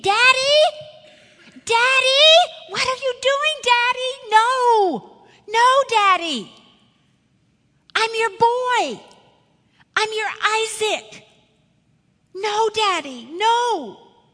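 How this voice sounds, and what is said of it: Screaming child's panicked voice. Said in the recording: “he's screaming,”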